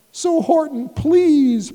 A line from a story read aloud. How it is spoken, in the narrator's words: pleaded the voice of the mayor